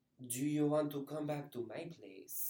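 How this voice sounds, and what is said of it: Bad put-on French accent. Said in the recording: “I tried to do the French accent, but I think it was really bad. ... No, it was but, like, pretty bad”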